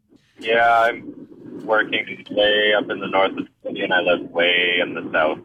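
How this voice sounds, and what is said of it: Flat, down, sad-sounding tone. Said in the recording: “What's with the down tone here? ... You sound sad ... doing an impression of Eeyore”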